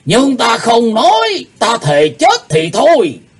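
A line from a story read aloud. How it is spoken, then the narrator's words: Furious loud shout. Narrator (Vietnamese): Lão âm ma Lỗ Tử Đàn giận tím mặt quát to lên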